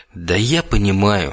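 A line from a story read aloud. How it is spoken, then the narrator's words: Sighing. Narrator (Russian): вздохнул Даркин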